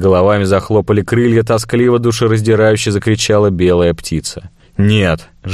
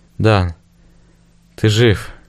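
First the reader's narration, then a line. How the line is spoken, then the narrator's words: Quiet. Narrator (Russian): тихо произнесла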